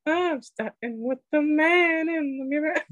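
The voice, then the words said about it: Singing in a falsetto. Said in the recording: “Nice falsetto. It's very good.”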